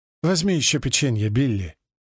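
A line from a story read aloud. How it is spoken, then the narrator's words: Gentle, affectionate. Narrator (Russian): ласково говорит Эллен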